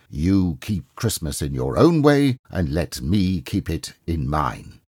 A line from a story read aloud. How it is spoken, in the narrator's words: Scrooge said sternly